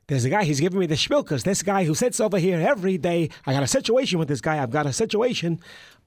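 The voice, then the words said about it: Put-on Jewish accent. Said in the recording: “I'm sure you could do a Jewish accent if you wanted.”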